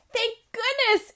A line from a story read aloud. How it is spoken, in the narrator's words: Emma said cheerfully